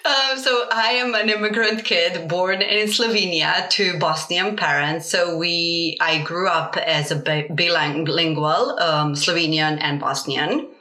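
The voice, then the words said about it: Lovely mixed multilingual European accent. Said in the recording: “Hence the lovely accent. ... my accent is actually a mix of 7 languages.”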